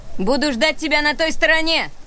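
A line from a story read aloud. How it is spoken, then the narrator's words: Shouting. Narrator (Russian): крикнула она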